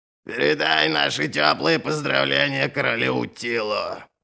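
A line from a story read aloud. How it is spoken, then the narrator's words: Creaky rasping voice. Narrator (Russian): проскрипел Верховный Король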